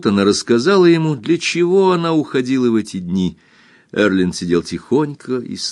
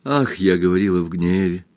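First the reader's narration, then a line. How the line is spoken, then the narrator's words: Quiet, embarrassed. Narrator (Russian): тихо и смущенно произнесла Кристин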